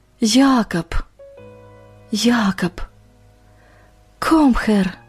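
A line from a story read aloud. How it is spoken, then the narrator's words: Barely audible whisper. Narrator (Russian): Иван чуть слышно шепча по-немецки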